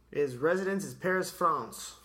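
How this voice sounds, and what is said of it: Put-on French accent. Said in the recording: “I can say that with a French accent. ... That was perfect.”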